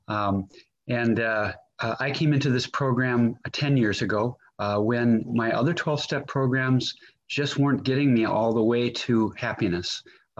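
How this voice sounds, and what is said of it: Minnesotan American accent. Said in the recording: “if any of you are wondering about my accent, I'm pretty Irish, besides being Minnesotan.”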